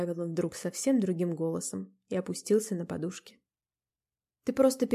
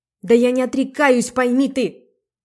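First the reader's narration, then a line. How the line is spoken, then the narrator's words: Nearly shouted. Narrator (Russian): почти крикнул Зернов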